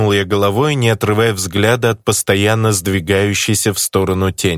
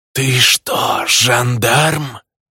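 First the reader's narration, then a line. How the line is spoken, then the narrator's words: Shadowy figure hissing. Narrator (Russian): зашипела тень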